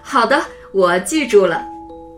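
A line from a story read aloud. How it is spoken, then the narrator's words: Laughing. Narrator (Chinese): 李叔叔笑了起来说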